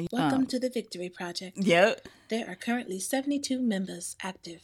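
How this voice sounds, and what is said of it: Put-on accent. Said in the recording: “I love that you did the accent. Good.”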